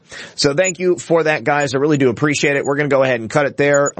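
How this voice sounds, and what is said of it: Strained, fading hoarse voice. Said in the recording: “I'm losing my voice now”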